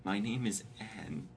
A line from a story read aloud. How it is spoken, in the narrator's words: she replied quietly